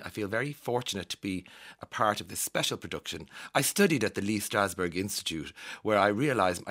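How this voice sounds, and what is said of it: Posh accent quoting Angelina Jolie. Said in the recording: “I don't know why I'm giving her a posh accent”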